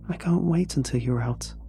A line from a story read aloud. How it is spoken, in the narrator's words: I whispered, followed by a small giggle